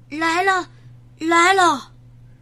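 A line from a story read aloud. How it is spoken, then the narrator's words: Breathless panting. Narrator (Chinese): 山姆气喘吁吁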